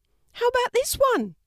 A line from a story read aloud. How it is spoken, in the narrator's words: shouted Maddie